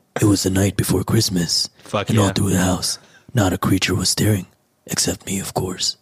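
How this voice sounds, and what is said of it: Geralt impression, gravelly voice. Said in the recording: “Let me try a Geralt voice.”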